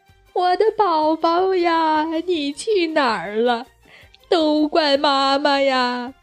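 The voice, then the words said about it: Sobbing, wailing speech. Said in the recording (Chinese): “呜呜哭起来”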